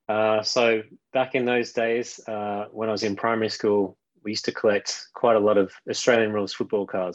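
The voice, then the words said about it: Australian accent. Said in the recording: “as you might be able to tell from the accent, I'm from Melbourne, Australia.”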